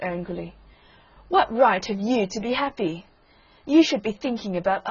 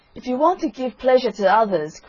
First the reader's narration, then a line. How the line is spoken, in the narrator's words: cried the Roman candle